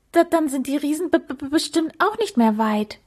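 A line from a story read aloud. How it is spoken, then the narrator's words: Stammering. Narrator (German): stammelte er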